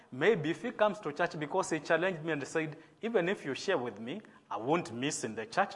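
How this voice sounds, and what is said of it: Kenyan-accented English. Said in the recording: “maybe some of my English words may not be American words. And if you hear that accent, please forgive me ... Kenya is a colony of the British, so our English is British English.”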